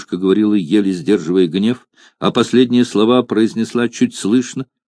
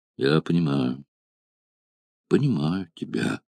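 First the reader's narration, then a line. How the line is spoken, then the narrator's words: Thoughtful and sad. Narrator (Russian): задумчиво и грустно сказал Спартак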